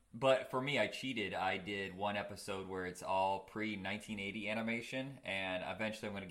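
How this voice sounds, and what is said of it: Sick, lowered smooth radio voice. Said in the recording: “my voice is different. I've been horribly sick and I still haven't recovered. If I try to go higher than this voice, I crack like Peter Brady... So I got to do the smooth AM radio talk voice.”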